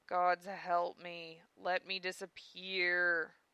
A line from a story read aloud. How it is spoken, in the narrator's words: moaned Zell